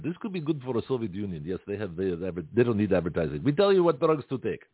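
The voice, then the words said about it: Put-on Russian accent. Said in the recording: “Maybe break into Russian accent ... just break into different accents randomly”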